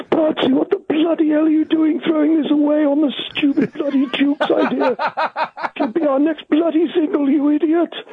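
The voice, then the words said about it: Imitates another person's voice. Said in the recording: “I should do my Dave Gregory impression ... that was quite a good impression, but it plays havoc on the larynx.”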